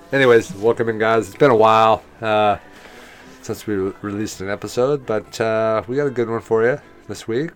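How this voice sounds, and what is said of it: Deeper than usual voice. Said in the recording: “I got a cold, so my voice might sound a little bit deeper than usual... He's got his sexy voice on”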